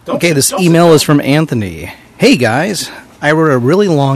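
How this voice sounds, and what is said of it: Usual voice. Nothing is said of it.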